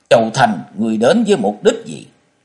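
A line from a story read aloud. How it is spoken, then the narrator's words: Frightened loud shout. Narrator (Vietnamese): Thông Thiên giáo chủ sợ toát mồ hôi, hắn lớn tiếng quát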